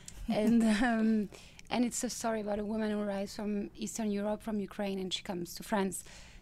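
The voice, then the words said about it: French accent. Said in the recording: “France, where I come from, obviously, with my accent”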